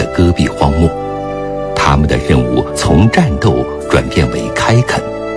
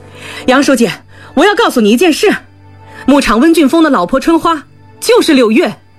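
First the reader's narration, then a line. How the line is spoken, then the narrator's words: Shouting. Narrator (Chinese): 李松泉一进门就喊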